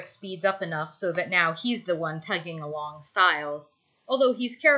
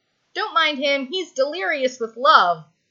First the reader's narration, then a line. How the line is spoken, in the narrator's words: Styles shouts back